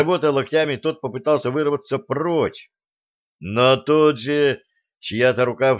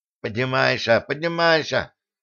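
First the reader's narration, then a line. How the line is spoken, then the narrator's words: Lisping. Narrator (Russian): прошепелявил кто-то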